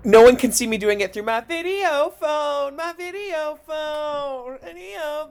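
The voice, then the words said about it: Imitates another person's singing voice. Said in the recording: “Jan impression ... That was my Jan.”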